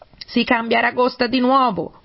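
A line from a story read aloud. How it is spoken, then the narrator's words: Griffin yelling. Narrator (Italian): urlò il grifone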